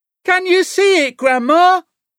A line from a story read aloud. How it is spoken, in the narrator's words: George shouted